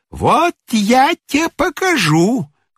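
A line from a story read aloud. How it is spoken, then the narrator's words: Shrill shriek. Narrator (Russian): взвизгнула приставиха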